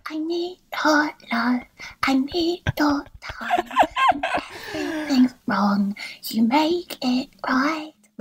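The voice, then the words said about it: Sung imitation of a pop singer. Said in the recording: “the only impression I can do in the world is Ellie Goulding singing I Need Your Love”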